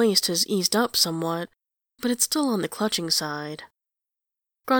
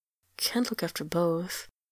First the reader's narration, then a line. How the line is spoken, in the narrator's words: Anjelos mumbles